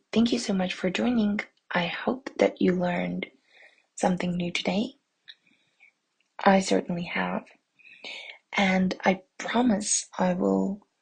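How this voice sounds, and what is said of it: Speaking very quietly. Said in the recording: “as you maybe can hear from my voice ... I'm trying to speak very quietly”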